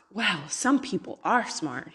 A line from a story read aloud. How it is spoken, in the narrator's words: he whispered to his companion